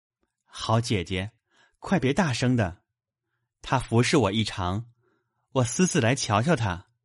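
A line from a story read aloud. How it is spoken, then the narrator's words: Frightened pleading smile. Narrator (Chinese): 宝玉……吓得忙陪笑央及道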